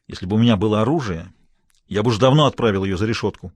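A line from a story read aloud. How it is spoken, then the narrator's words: Snapping back. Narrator (Russian): огрызнулся Смайлоу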